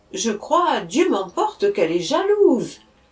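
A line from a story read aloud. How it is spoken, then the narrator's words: Exclaiming. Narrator (French): s'écria-t-il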